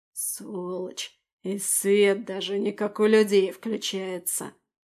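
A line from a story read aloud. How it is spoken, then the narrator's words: Grumbling. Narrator (Russian): проворчал первый голос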